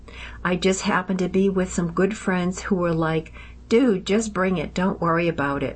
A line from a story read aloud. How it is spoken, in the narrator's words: Will said